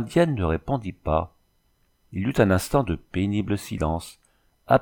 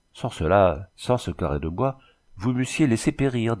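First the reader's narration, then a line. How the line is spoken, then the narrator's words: Somber tone. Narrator (French): dit Dubreuil d'un ton sombre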